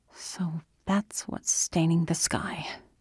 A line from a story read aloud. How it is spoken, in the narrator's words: she muttered